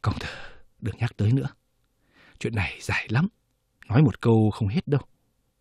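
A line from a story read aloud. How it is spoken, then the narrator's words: Sighing. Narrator (Vietnamese): Tiến Phúc thở dài một tiếng, nói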